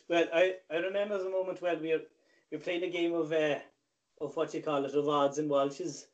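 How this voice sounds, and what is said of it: Speaks in a put-on accent. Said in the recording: “Do I have to tell the story in this accent as well?”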